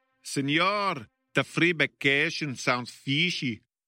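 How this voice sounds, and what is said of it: Put-on Spanish-style accent. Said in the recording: “work on that accent”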